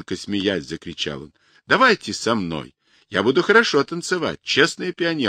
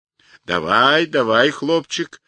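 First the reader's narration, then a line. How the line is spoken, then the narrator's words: Giant's joyful greeting. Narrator (Russian): радостно встретил его гигант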